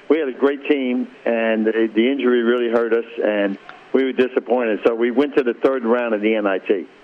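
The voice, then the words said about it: Bronx accent. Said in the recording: “you haven't lost your Bronx accent”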